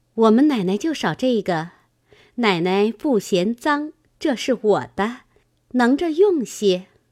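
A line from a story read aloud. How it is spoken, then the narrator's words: Laughing. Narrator (Chinese): 素云笑道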